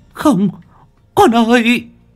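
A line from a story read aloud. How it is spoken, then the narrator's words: Anguished cry. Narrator (Vietnamese): bà Toán kêu lên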